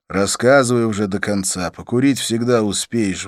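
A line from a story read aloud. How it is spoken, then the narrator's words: Sighing. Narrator (Russian): вздохнул я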